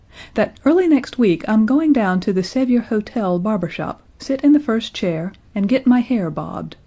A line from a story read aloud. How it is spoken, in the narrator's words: continued, her voice rising slightly